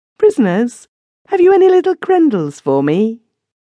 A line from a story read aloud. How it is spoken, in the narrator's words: clear, joyous sound, little maiden face, smiling so sweetly